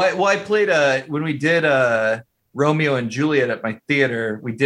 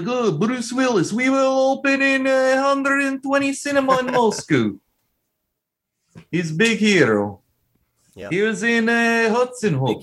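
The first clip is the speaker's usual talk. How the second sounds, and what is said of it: Good put-on Russian accent. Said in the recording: “That's a good Russian accent.”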